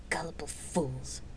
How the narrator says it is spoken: Celesta hissed

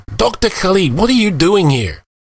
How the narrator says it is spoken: Nick staggered, exclaiming

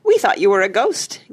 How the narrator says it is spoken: giggled Missy

